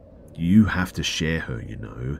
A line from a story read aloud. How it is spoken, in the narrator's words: in a really ominous voice, she said